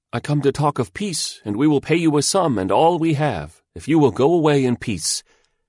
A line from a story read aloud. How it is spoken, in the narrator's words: he called out when he could be heard